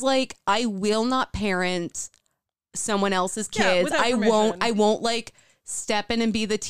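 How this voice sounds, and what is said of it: Usual voice. Nothing is said of it.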